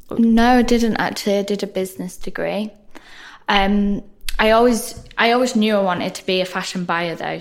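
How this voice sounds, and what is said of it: Northern English accent. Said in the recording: “I'm a northerner, which you can probably tell by my accent”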